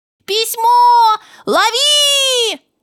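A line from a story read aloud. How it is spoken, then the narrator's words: Shouting. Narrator (Russian): закричал Миша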